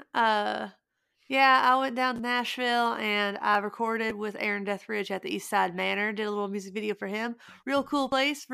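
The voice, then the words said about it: Put-on Southern accent. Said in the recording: “say it in a Midwestern accent, maybe even a Southern accent ... You got to say it in a Southern accent.”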